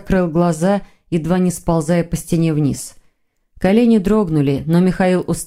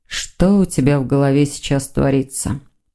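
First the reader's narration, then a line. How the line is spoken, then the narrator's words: Mumble. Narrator (Russian): пробормотал Сазонов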